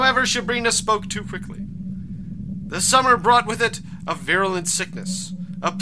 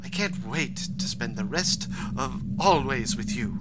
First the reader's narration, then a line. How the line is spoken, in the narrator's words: Shibrina whispered